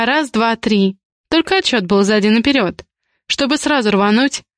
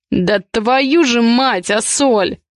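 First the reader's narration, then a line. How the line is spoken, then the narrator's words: Growled angrily. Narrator (Russian): прорычал Ивар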